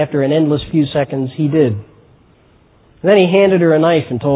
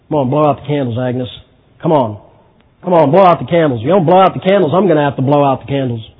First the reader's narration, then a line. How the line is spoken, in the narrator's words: Harry gruffly mumbled